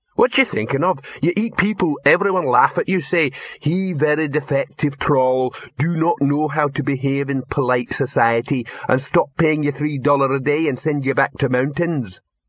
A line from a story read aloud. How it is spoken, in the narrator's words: Victor gave what he hoped would sound like a light chuckle